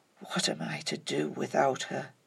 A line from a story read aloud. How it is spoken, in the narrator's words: It stopped in his throat, and he whispered